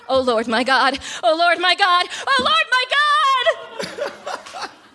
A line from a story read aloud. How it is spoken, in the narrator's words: Noah murmuring